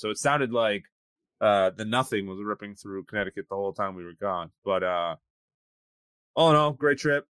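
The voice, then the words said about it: Sick-sounding voice. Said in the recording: “Got sick when I got back... For those of you who can hear it in my voice, I'm still kind of kicking it a little bit.”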